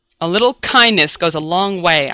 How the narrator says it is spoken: I sneered

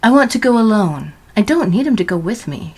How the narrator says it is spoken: said curtly

